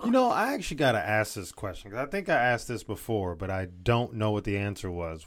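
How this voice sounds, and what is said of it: Southern drawl. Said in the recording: “You got some southern drawl. Got some southern drawl in that situation.”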